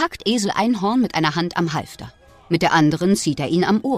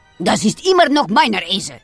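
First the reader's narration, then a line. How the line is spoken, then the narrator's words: Growling answer. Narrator (German): antwortet Herr Gottone knurrend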